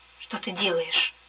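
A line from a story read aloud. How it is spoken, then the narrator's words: Whispering. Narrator (Russian): шептала я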